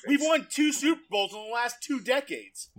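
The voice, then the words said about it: Yelling, aggressive loud voice. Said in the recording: “Why are you yelling? ... aggressive”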